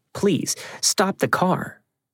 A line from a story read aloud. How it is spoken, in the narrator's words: we pleaded with him